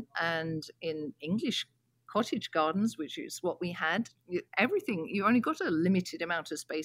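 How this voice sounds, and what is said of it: English accent. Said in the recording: “I grew up in England, as you can probably tell from my accent.”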